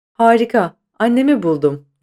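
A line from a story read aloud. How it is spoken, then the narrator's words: Excited cry. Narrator (Turkish): diye haykırdı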